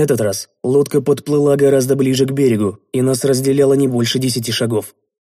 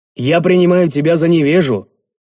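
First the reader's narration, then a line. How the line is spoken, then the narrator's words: Angry bark. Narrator (Russian): разозлившись, рявкнул я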